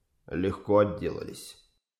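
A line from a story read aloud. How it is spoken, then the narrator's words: Quiet. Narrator (Russian): тихо сказал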